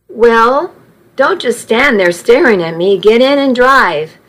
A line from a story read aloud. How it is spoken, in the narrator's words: said, somewhat gruffly to cover my heartbreak